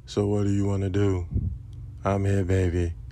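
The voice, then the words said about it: Deliberately deep, low voice. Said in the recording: “it just made me want to just go into my deep voice.”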